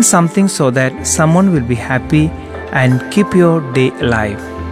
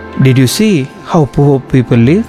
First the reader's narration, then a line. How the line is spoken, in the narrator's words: the father asked